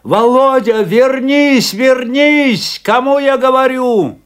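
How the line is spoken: Shout. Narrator (Russian): закричал Афанасий

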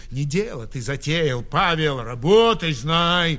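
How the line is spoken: Fierce. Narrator (Russian): свиреп ответил пекарь

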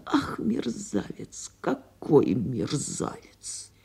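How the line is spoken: Muttered. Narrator (Russian): Она бормотала

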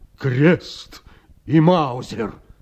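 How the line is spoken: Deep bass voice. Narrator (Russian): раковина сказала ей басом

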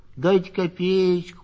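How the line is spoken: Nasal drawling simpleton. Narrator (Russian): гнусавил протяжный дурачок

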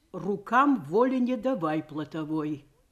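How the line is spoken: Demanding, calm. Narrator (Russian): Сказала она требовательно и спокойно

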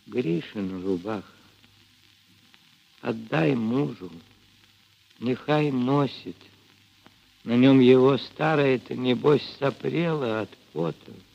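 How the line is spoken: Barely audible. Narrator (Russian): чуть слышно проговорила Ильинична

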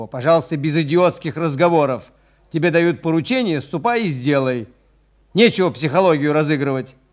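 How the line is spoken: Angry yelling. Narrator (Russian): заорал на него

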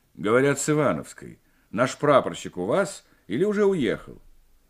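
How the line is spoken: Affected commanding bass. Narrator (Russian): спросил напускным командирским баском

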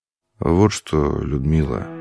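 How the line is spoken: Quiet. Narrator (Russian): сказал он тихо

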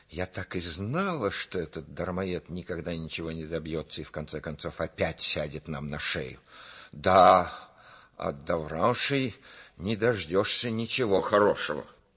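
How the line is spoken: Furious hissing mother. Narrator (Russian): Мать, вдруг разъярившись, зашипела

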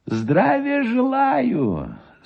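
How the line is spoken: Thin high voice. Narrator (Russian): сказал Гусев тонким и высоким голосом

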